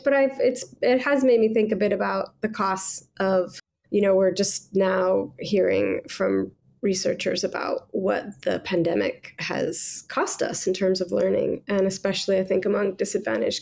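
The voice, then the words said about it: Voice audibly affected by illness. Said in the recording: “as you might hear from my voice, I'm bringing a COVID infection”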